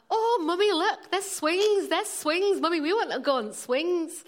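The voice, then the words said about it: Put-on Leeds accent. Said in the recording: “That was my Leeds accent.”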